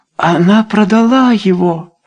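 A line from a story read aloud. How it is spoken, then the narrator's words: Exclamation. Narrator (Russian): воскликнула Люсинда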